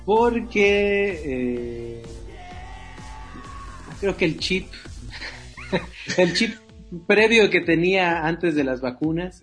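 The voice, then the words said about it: Argentine-Chilean sounding Spanish accent. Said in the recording (Spanish): “notamos como un acento argentino chileno o chilo argentino”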